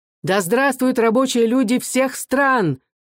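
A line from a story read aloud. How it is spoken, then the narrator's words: Shout. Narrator (Russian): крикнул Павел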